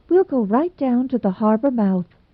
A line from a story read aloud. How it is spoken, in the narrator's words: whispered Anne